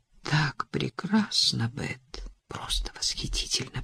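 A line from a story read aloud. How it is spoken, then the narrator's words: Restrained passionate whisper. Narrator (Russian): прошептал, не позволяя желанию взять верх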